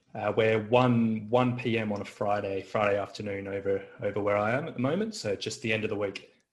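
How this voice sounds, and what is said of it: Australian accent, slightly English-sounding. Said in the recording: “you don't seem to have an American accent... did you grow up in England or something like that? Because apparently my Australian accent isn't so good sometimes”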